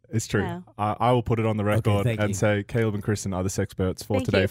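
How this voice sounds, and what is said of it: Australian accent. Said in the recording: “when you say it with the Australian accent”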